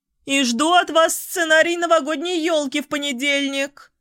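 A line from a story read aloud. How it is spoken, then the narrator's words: Shouted after someone. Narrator (Russian): крикнула мне вдогонку Анна Ивановна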